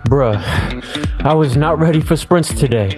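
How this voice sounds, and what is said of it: Out of breath, panting speech. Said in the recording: “Why are you so out of breath?”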